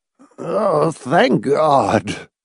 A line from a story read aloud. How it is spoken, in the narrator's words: Arthur Sylvester muttered piteously